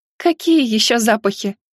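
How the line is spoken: Young woman laughing. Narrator (Russian): Рассмеялась девушка

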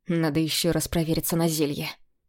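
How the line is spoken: Muttering to himself. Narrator (Russian): пробормотал себе под нос

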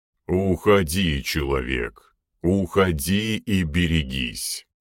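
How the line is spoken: Near growl. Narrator (Russian): почти рычал тот

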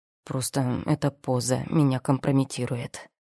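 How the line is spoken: Displeased mutter. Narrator (Russian): недовольно буркнул Рон

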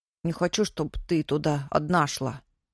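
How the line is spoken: Angry grumble. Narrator (Russian): сердито буркнул он

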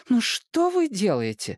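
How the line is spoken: Desperate exclamation. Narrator (Russian): воскликнула мама в отчаянии

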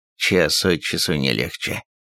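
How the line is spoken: Man muttering. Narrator (Russian): пробормотал человек

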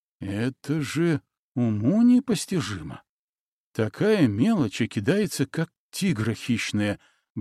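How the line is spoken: Muttering. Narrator (Russian): бормотал он

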